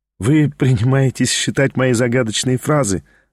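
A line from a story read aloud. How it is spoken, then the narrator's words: Laughing. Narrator (Russian): засмеялась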